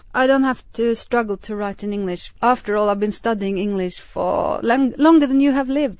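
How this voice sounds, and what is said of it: Strange non-native English accent. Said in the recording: “I have a strange accent, as you can tell”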